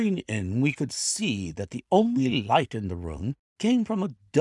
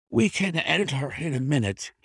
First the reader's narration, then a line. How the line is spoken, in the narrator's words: he gasped